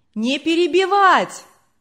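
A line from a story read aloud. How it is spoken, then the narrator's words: Crowd shouting from back. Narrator (Russian): кричали на задних рядах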